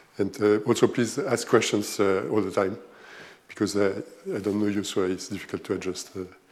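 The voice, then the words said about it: German accent in English. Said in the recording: “You will immediately notice that I have a German accent”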